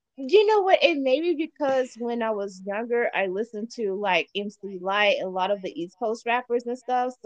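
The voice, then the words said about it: East Coast New York accent. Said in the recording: “New York in the house ... I got like an accent, you know, from that ... I feel like I'm talking to one of my peoples in New York right now”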